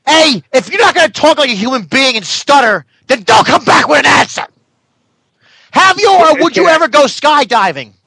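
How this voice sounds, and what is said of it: Yelling, shouting voice. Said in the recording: “Why are you yelling at me?”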